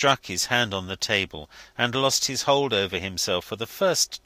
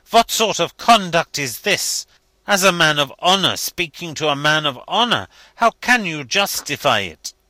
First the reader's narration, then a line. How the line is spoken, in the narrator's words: he exclaimed indignantly